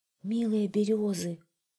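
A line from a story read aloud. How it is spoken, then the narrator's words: Timid, the fog. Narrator (Russian): робко сказал туман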